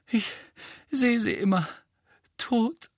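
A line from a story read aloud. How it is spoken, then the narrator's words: Groaning. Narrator (German): stöhnte Mrs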